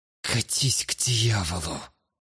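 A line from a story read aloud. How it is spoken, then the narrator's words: Hiss. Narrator (Russian): Прошипела Флогия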